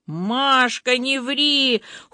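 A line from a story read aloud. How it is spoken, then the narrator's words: Shouted in chorus. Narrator (Russian): хором закричали Костя и Боба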